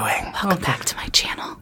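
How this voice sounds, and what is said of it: Soft ASMR-style voice. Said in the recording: “ASMR voice”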